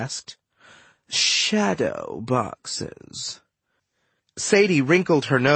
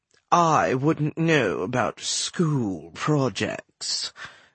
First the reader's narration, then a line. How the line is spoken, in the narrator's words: Bost said haughtily